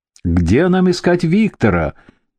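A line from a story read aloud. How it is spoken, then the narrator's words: Young man shouting from afar. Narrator (Russian): выкрикнул какой-то парень с середины улицы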